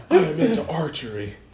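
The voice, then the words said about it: Imitates another person's voice. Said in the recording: “That's my Nicolas Cage impression.”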